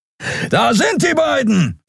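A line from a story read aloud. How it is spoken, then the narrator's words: Nonhuman voice calling. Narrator (German): rief eine nichtmenschliche Stimme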